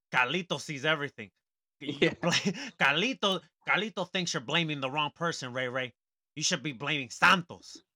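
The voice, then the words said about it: Imitates another person's voice. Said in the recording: “perfect spot on impersonation”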